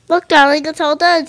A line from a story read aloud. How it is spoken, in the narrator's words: said her mother